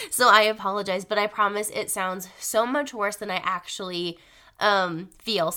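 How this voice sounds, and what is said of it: Voice rough from a cold. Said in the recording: “sorry about my voice. I wound up getting a cold a couple of days ago, and my voice is so not cute right now.”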